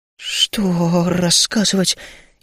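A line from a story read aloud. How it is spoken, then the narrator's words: Stammering frightened question. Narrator (Russian): заикаясь, спросил я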